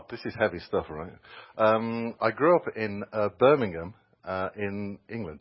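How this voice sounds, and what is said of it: English accent from Birmingham, England. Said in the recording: “Oh, I assumed it wasn't Alabama from your accent.”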